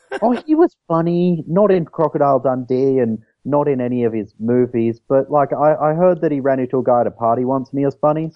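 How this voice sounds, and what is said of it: Australian accent. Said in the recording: “People mostly recognize the Australian accent.”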